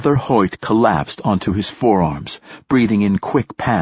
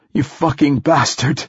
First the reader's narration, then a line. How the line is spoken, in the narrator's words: he gasped